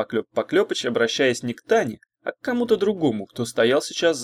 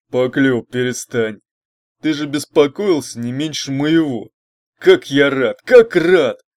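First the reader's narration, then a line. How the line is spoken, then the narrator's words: Good-natured booming bass. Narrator (Russian): Добродушно пробасил кто-то, гулкий голос Тарараха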